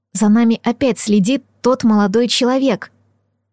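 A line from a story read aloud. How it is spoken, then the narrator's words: Whisper. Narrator (Russian): прошептав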